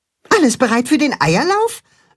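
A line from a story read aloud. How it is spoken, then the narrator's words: Excited question. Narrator (German): fragt Max aufgeregt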